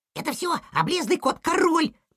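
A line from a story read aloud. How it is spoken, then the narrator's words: Small child squeaking. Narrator (Russian): пискнул малыш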